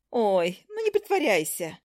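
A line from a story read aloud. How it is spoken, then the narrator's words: Fake laughing. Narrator (Russian): Она фальшиво рассмеялась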